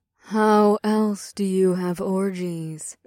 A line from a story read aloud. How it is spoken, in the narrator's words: Ada purred